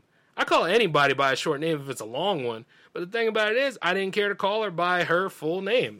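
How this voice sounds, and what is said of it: Southern drawl. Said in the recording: “I'm from the South. Not deep South, but I'm from the South... You can kind of hear it in my drawl if you listen”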